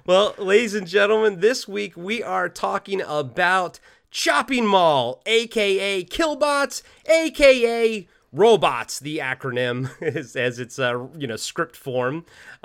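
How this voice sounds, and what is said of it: Rough, congested voice. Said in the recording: “apologize for my voice. I am getting over a gnarly-ass cold ... I still have a little bit of it in my chest”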